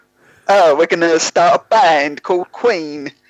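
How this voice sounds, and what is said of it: Imitates another person's voice and accent. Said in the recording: “Freddie Mercury in the Bohemian Rhapsody movie. That's that's the accent”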